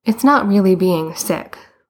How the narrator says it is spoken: Boots said miserably

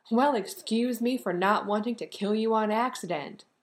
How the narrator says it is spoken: he shouted

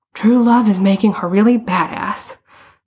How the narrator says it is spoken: Bruno panted

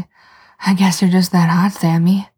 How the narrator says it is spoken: Dean says, gasping

